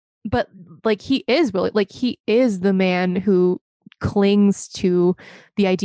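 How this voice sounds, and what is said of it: Usual voice. Nothing is said of it.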